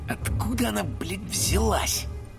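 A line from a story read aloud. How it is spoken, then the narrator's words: Whispered. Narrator (Russian): прошептал Боди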